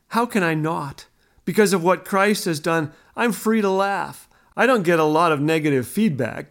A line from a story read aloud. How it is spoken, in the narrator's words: Ken laughed